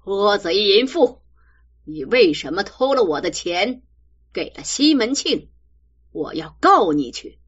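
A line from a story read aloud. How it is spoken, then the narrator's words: Harsh scolding. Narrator (Chinese): 厉声骂道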